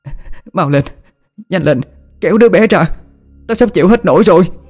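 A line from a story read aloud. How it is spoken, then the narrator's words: Old woman straining, shouting louder. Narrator (Vietnamese): bà Hai gì mạnh và hét lên to hơn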